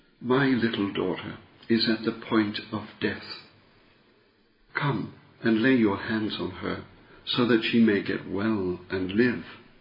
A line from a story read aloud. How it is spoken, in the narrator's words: Jairus, an official of the synagogue, begged him earnestly